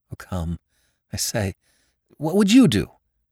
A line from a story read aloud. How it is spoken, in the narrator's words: he stammered